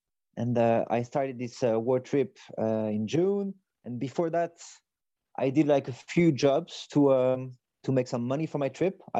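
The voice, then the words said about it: French accent. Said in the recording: “So I'm French. Maybe you can hear it in my accent.”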